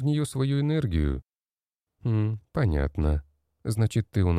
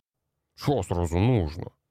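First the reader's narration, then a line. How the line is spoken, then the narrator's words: Grumbling short man. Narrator (Russian): проворчал коротышка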